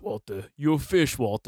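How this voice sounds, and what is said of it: Imitates another person's voice. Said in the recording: “that's my impression of Mike ... That actually does sound like Mike, too.”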